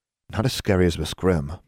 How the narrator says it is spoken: muttered Anna

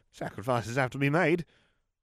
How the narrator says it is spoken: she breathed

